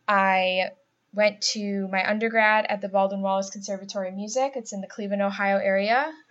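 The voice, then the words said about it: Buffalo accent with nasal A's. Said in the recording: “if you haven't already could tell by my accent, I'm from the Buffalo area, so I have those nasally A's”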